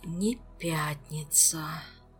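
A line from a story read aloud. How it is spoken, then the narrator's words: Strained groan. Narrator (Russian): простонал Кантер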